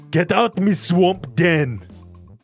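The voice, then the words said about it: Poor Shrek impression, Schwarzenegger-like. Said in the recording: “doing a Shrek impression ... it wasn't good enough ... It wasn't even good ... You sound like Arnold Schwarzenegger”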